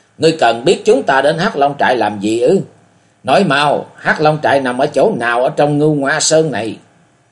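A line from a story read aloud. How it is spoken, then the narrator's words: Young woman shrieking in terror. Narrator (Vietnamese): Thiếu phụ kinh hoàng rú lên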